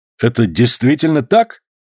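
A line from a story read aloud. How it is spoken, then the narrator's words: Exclaimed, major. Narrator (Russian): воскликнул майор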